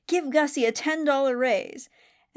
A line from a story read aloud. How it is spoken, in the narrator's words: exclaims